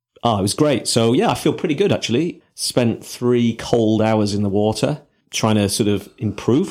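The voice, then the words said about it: Congested voice with a cold. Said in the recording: “I'm suffering from a little bit of a cold, I think ... or I've just got the sniffles ... you sound like my grandpa”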